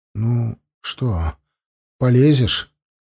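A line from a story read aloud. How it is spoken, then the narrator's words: Shaky question. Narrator (Russian): дрогнувшим голосом спросил Симах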